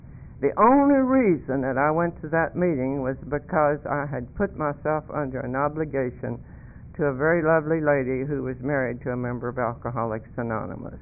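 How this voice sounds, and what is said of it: Southern Appalachian North Carolina accent. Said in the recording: “if you haven't picked up on the accent yet, I'm a hillbilly. I grew up in the hills of North Carolina”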